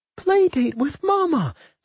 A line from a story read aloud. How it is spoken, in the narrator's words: the twins chorused happily